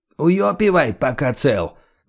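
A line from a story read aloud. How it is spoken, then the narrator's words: Barked with Gypsy accent. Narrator (Russian): гаркнул с очень характерным цыганским прононсом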